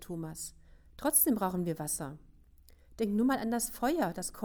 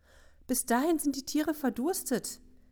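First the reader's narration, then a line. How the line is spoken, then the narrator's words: Wailing. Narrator (German): jammerte Katrin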